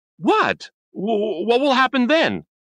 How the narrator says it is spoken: shouted

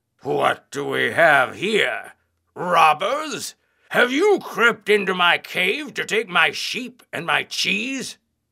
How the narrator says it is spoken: roared

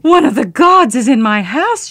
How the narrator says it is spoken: she wailed

